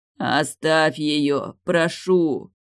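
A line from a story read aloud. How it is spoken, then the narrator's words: Strained hoarse rasp. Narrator (Russian): прохрипел Далиль, тяжело поднимаясь с земли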